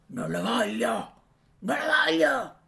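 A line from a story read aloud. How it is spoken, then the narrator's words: Nasty man shouting. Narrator (Italian): Il cattivo uomo gridava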